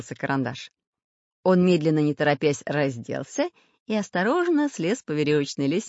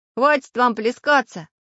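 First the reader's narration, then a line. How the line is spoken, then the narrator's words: Iron little man shouting. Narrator (Russian): крикнул из корзины железный человечек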